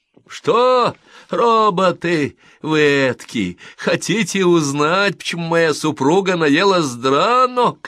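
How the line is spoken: Shouted. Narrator (Russian): крикнул Двейн

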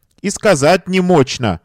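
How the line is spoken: Sobbing working woman. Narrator (Russian): отвечала работница, рыдая

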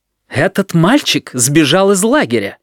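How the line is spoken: Indignant announcement. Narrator (Russian): возмущённо известил директор

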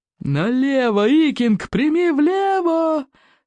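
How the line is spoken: Bellowing roar. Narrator (Russian): взревел Плевака крикливый

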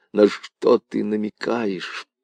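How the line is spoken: Hoarse voice. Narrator (Russian): Хриплым голосом он произнес

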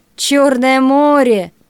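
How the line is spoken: Grumbling man. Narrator (Russian): проворчал человек

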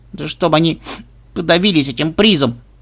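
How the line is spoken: Granddaughter's gloomy grumble. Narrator (Russian): мрачно буркнула внучка

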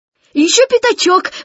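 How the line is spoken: Excited. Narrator (Russian): взволнованно сказал Кристофер Робин

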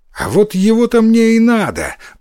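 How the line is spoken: Exclaiming. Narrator (Russian): воскликнул Иссумбоси

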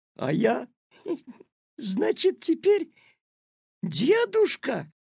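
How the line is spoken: Laughing loudly. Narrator (Russian): расхохотался Петя

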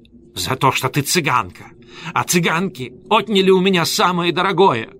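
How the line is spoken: Shouted. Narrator (Russian): крикнула Пакетта Шамфлери

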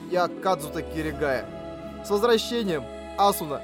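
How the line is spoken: Holding back sobs. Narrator (Russian): Я ответил, не выпуская рыдания из горла

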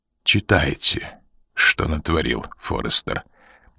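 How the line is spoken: Quiet. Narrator (Russian): тихо сказал

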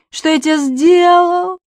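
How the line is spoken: Sobbing. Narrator (Russian): рыдает Префен

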